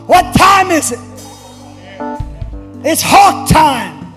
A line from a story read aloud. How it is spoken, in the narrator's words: people would be hollering